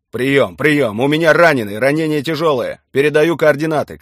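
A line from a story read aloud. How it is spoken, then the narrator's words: Shouting into radio. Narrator (Russian): кричал Виктор Иванович в рацию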